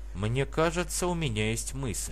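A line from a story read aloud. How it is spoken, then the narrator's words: Quiet remark. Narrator (Russian): кто-то, однако, негромко произнес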